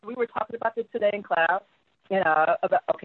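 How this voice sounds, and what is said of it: Put-on white girl voice. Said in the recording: “let me stop doing my white girl voice.”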